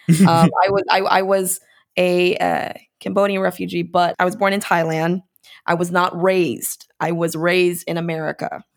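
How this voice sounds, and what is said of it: Very American accent. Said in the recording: “my accent is American accent is very American.”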